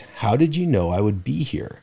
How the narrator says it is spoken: I asked

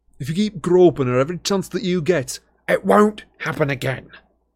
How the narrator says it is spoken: said Harry harshly

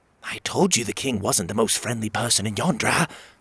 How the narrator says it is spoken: she whispered

